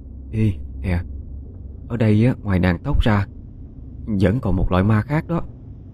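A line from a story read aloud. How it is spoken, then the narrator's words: Whispering. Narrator (Vietnamese): Trúc lên tiếng thì thào nói với Quanh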